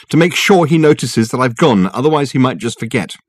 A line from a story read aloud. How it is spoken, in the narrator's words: she said, without looking up, angrily